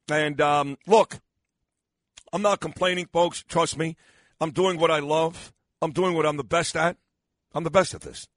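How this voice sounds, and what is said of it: Hoarse, strained, tired voice. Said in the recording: “I'm losing my voice. ... really taxing on my voice”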